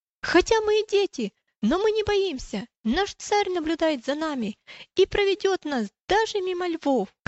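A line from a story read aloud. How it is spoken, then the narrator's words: Sudden shout. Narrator (Russian): неожиданно она закричала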